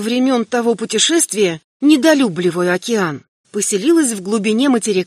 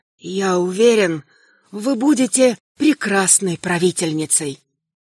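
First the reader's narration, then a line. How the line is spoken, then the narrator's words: Soft, close to ear. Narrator (Russian): мой Авердан сказал на ухо земляной тихонько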